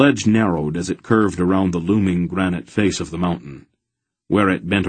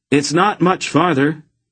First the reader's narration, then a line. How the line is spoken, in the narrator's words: Geryon yelled back over his shoulder